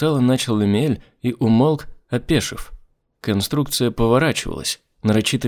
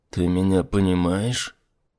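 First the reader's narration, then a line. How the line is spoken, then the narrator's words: Distrustful whisper. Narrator (Russian): прошептал недоверчиво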